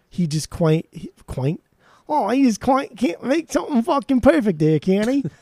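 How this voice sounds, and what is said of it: Poor put-on Cockney accent. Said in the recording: “That's my that's my Cockney accent there. ... that was all Australia. ... that was New Zealand mixing with like the ... That was the worst.”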